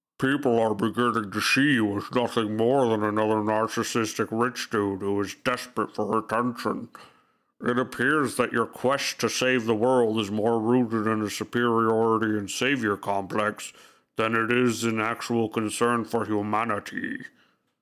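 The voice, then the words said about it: Put-on Anonymous hacker-video voice. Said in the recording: “I'm going to attempt to put on the voice ... was very Anonymous.”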